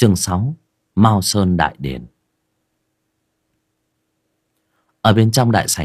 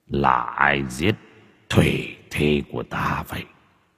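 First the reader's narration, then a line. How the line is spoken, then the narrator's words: Muttering. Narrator (Vietnamese): giọng lẩm bẩm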